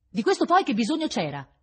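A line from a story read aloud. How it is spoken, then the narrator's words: Frowning, nasty exclamation. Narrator (Italian): esclamò accigliata e cattiva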